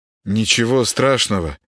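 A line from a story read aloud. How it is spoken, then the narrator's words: Uncertain reply. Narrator (Russian): неуверенно ответил Володаров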